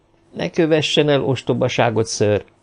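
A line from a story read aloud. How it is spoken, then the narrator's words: Cold warning, young woman. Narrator (Hungarian): figyelmeztette hidegen a lány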